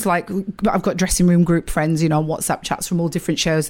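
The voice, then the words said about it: Strong northern English accent. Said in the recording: “you are so northern... I'm in my own accent... It's so much stronger”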